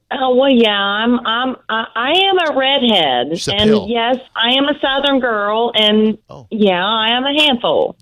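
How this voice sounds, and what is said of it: Southern US accent. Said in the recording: “my southern accent ... that beautiful little accent”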